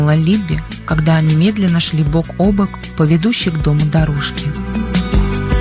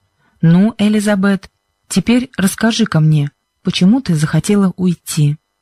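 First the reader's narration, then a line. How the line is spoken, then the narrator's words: Kind voice. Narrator (Russian): проговорил мистер Джонсон добрым голосом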